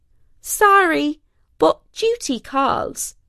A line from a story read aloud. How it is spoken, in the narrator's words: cried out the weaver